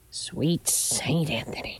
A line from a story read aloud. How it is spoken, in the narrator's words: she muttered